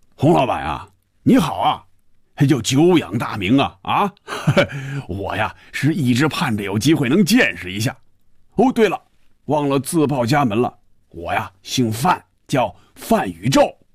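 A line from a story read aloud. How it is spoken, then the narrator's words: Laughing, muffled, over phone. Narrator (Chinese): 电话里首先传入红军耳朵的是一串笑声，然后是有些瓮声瓮气的声音说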